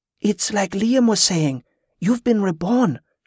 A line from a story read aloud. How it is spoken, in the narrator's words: she breathed in wonder